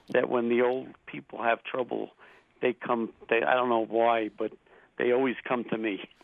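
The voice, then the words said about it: Eastern US accent. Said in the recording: “That sounds like an Eastern accent.”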